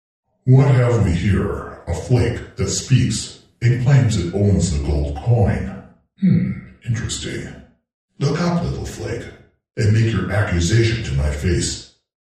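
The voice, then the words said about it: Deep booming character voice. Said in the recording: “I heard a deep voice which appeared to come from everywhere at once reply.”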